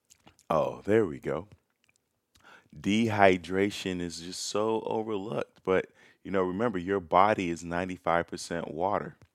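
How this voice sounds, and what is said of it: Raspy voice. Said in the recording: “my voice is so raspy”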